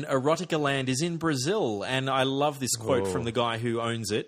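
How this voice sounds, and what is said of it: Usual voice. Nothing is said of it.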